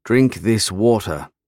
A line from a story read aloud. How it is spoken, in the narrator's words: I said through gritted teeth